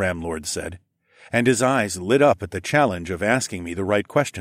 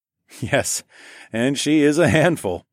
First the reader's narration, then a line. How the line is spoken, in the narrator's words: I chuckled